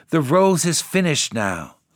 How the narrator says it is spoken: cried the tree

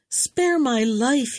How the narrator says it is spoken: he cried

